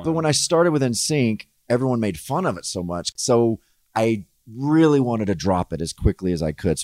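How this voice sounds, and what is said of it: Subtle gentlemanly southern accent. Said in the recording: “it's a very nice accent ... It sounds gentlemanly ... You have like a subtle one ... a little southern accent”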